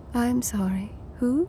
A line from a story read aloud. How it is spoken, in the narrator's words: she said, in a soft, surprisingly elegant voice